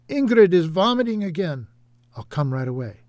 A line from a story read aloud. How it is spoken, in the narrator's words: A worried voice called out